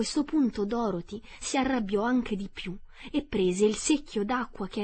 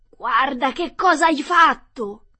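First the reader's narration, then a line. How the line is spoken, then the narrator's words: Yelling. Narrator (Italian): urlò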